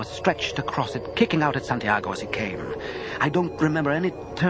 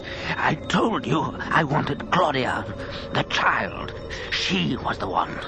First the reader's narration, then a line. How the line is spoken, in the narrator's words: Lestat said in a harsh, low voice